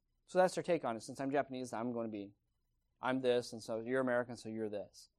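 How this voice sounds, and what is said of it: Usual voice. Nothing is said of it.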